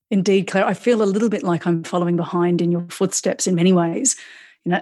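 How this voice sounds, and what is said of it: Mixed international Australian accent. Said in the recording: “you'll have to excuse mine. I've been out of the country for 15 years. So I have a bit of a mixed bag of an international Australian out of the country sounding accent”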